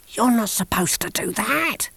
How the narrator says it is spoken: said Big Mac hoarsely

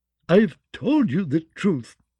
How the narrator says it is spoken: the singer sobbed

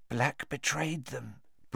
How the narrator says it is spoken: breathed Madame Rosmerta

